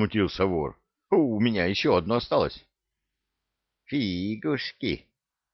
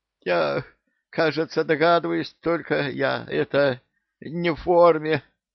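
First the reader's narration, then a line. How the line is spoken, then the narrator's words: Quiet hoarse wheeze. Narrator (Russian): захрипел потихоньку синее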